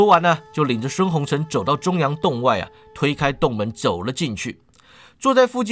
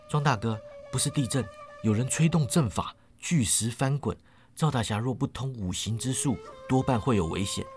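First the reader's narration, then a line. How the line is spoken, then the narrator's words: Soft voice. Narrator (Chinese): 孙红尘轻声说道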